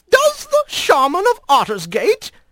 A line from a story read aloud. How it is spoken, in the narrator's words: he had finally exclaimed